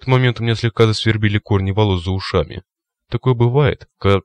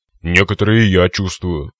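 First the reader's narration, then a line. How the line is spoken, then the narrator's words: Grumbling cyclops. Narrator (Russian): проворчал циклоп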